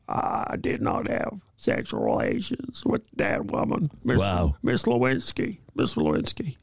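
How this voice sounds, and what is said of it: Bill Clinton impression. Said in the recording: “That's a very good Bill impression ... Maybe Bill in his latter years”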